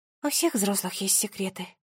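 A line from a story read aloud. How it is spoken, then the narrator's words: Quiet. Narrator (Russian): тихо сказала она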